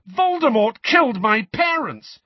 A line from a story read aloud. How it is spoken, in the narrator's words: Harry spluttered